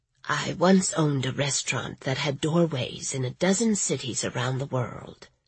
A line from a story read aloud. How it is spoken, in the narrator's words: she whispered